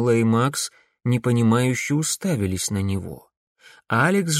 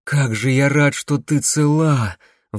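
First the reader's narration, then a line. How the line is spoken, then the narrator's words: Breathed out. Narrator (Russian): выдохнул он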